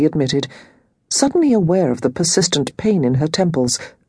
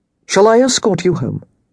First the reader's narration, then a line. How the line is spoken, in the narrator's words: Thomas asked